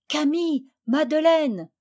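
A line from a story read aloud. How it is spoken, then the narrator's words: Shouted to them. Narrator (French): leur cria-t-elle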